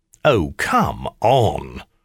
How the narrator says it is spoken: My scoffing noise was louder still

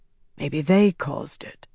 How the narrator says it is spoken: Naif said softly

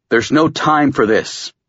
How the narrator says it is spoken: Kurt growled

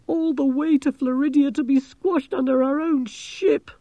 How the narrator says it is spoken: moaned Angelo

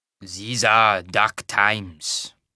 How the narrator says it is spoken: the wagon master said, in a thick Tarbanese accent

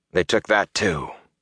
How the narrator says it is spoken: Rand said quietly

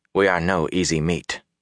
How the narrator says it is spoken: Ingtar said softly

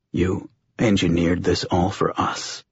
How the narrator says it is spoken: John said, his voice hoarse

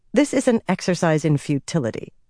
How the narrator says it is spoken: she told herself firmly

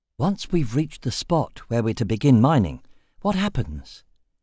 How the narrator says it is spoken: He asked softly

